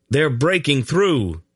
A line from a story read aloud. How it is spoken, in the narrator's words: Geryon yelled